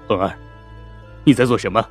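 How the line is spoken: Cold voice. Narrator (Chinese): 杜仲冷冷的声音

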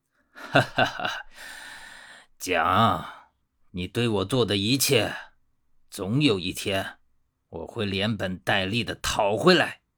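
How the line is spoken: Laughing, then through gritted teeth. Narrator (Chinese): 他突然哈哈大笑起来，然后咬牙切齿地说

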